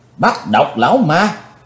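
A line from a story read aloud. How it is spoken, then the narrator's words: Crowd shouting in unison. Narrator (Vietnamese): cả tràng đều đồng thanh quát lớn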